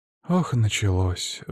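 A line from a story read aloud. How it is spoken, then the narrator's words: Sigh. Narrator (Russian): вздохнула Анна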